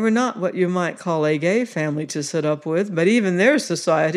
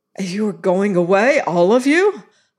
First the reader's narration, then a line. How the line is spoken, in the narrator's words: I cried